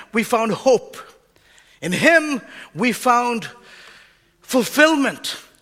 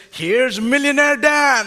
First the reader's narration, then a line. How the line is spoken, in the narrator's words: he'd cackle through a toothless grin